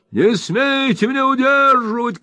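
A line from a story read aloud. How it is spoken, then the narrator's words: Old man shouting. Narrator (Russian): кричал старик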